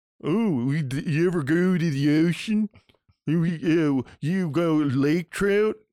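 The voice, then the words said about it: Mocking put-on regional accent. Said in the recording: “That's not a fucking accent. That's a guy making fun of me. That's a guy doing a voice.”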